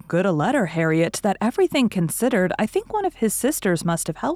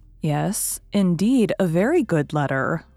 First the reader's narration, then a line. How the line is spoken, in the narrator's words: replied Emma rather slowly